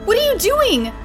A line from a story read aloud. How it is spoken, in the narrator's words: I yelled